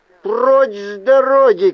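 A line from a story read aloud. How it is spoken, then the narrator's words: Shouted. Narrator (Russian): крикнул я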